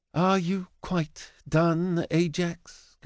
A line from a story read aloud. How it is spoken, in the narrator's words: Kalindora asks with a sigh